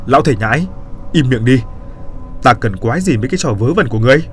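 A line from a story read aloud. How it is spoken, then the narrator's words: Shouting. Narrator (Vietnamese): nó quát lên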